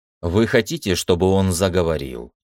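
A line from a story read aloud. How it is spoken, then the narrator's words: Calm voice. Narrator (Russian): спокойным голосом спросил Виктор у Харриса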